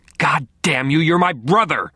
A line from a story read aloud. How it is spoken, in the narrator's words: she snarled, and the ferocity of it